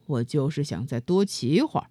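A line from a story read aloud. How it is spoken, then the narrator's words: Cold. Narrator (Chinese): 比利冷冷地说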